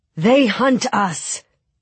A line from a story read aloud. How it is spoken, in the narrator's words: he said, raising his voice so everyone could hear him